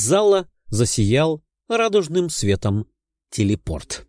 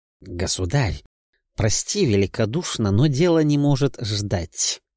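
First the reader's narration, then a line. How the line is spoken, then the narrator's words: Quiet but firm. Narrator (Russian): негромко, но твердо произнес епископ Валаама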